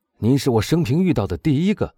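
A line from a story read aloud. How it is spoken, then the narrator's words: Loud speech. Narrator (Chinese): 夏多勒诺大声说道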